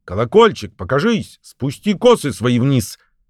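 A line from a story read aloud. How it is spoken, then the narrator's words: Shout. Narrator (Russian): он крикнул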